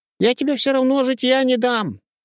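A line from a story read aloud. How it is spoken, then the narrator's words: Squeaky call after someone. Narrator (Russian): пропищал вслед Петька Свисток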